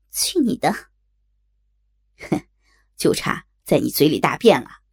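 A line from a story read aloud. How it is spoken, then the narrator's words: Amused, laughing. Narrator (Chinese): 我听他说的太逗，噗呲笑着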